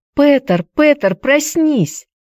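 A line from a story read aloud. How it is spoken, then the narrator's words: Screaming. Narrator (Russian): завопила Хайди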